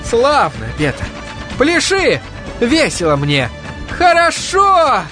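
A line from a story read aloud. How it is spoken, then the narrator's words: Yelling, voice cracking. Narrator (Russian): Петр заорал срывающимся голосом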